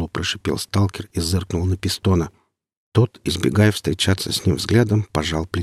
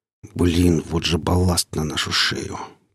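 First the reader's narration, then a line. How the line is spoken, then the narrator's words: Grumbled. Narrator (Russian): пробурчал Гриф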